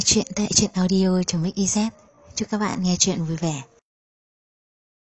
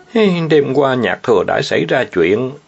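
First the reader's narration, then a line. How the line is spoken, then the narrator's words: Sighing, anguished. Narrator (Vietnamese): Triệu Mục không hề nghi ngờ, thở dài một tiếng rồi khổ não nói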